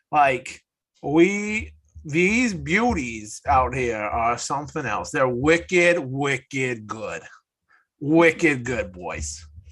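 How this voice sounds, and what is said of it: Put-on Maine New England accent. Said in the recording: “I'm going to talk in my main accent the rest of the night”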